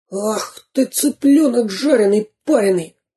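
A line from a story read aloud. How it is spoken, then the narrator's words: Hissed. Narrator (Russian): прошипел Дырка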